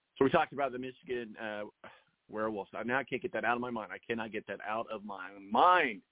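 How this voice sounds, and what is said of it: Hoarse, strained voice. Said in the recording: “Sorry, I'm losing my voice, as usual.”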